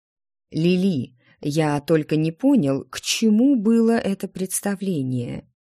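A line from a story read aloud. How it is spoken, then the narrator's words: Reproachful drawl. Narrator (Russian): Не менее укоризненно протянул Ремир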